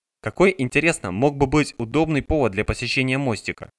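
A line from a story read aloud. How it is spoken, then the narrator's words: Plain. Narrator (Russian): спросил он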